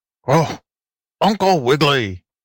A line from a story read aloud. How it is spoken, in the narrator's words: barked the ragged but polite tramp dog